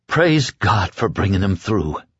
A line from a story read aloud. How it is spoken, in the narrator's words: she muttered hoarsely